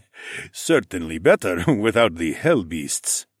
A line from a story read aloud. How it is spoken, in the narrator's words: the dragon chuckled